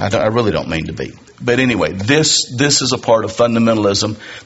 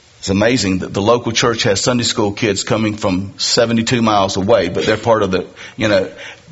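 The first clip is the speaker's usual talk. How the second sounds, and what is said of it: Sarcastic tone. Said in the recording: “I sound sarcastic.”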